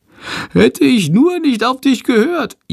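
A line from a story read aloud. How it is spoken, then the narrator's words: Whining. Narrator (German): jammert Schandor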